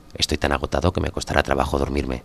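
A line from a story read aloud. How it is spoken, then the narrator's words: Plain. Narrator (Spanish): dijo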